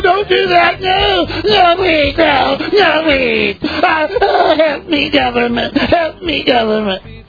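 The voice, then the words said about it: Pathetic pleading imitation voice. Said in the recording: “my pathetic imitation”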